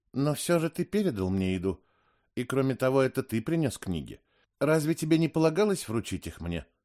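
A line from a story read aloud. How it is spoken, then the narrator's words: Uncertain objection. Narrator (Russian): Я смог лишь неуверенно возразить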